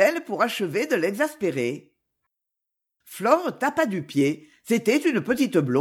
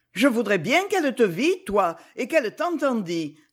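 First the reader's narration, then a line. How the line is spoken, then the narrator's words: Tearful exclamation. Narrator (French): s'écria Flore en se tamponnant les yeux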